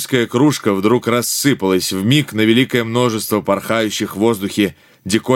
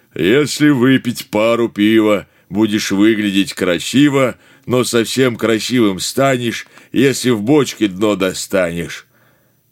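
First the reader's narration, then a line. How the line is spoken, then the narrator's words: Sung in hearty bass. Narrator (Russian): бочка-толстуха и ядреным басом запела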